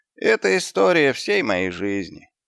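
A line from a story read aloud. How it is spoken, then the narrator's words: Sighing. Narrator (Russian): вздохнул Господь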